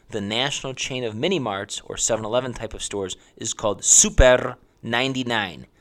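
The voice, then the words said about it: Heavy accent on a name. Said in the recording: “Yes, that's my heavy accent.”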